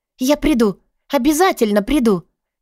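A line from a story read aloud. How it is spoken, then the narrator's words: Exclamation. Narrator (Russian): воскликнула я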